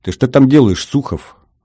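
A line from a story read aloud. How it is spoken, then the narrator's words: Stern question. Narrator (Russian): строго спросил Гордон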